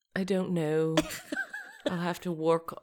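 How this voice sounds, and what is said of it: Weak put-on British accent. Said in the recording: “British accent ... You're already losing it ... I need to do a better job figuring out my accent”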